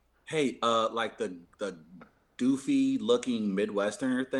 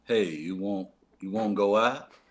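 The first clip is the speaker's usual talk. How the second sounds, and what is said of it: Dim-witted slow character voice. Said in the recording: “in your best Lenny voice... Mice and Men Lenny thing... that maneuver voice”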